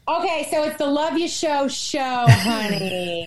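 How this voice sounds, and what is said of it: Fake New York accent. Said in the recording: “The New York accent comes immediately. ... I'm speaking in a fake New York accent.”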